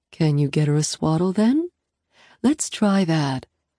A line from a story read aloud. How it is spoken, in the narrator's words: Mom asks gently